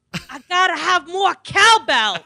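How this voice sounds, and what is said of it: Christopher Walken impression. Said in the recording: “a very poor impersonation of Chris Walken ... the Walken impersonation”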